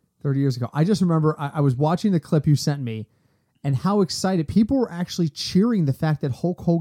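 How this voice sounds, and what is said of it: Usual voice. Nothing is said of it.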